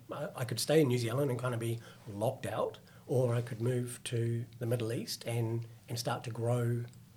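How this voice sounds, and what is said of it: New Zealand accent. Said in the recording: “I'm a Kiwi, so which is why I've got this horrible accent”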